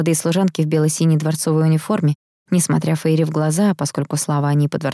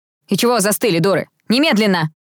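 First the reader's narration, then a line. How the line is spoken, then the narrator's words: Bark. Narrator (Russian): рявкнула она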